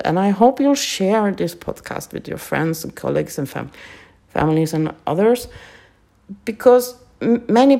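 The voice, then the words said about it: Non-native English accent. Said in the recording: “my English isn't that good ... my accent and my stuttering”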